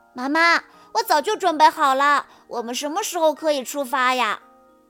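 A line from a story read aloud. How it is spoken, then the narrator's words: Impatient, loud. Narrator (Chinese): 波比等得有些不耐烦了，大声地说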